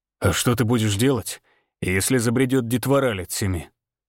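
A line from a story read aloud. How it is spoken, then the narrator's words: Snorted. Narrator (Russian): хмыкнул Всеволод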